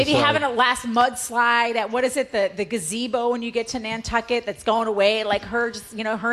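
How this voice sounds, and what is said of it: Usual voice. Nothing is said of it.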